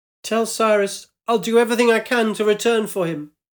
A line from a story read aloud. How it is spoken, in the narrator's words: shouted up